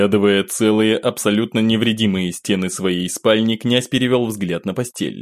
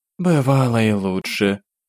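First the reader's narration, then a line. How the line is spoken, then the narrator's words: Woman sighing. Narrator (Russian): вздохнув, произнесла женщина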